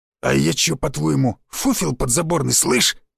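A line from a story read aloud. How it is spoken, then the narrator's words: Instantly heated. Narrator (Russian): Мгновенно завелся Сиплый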